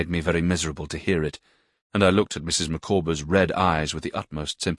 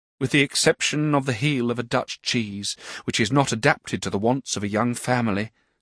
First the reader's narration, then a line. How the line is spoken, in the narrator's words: said Mrs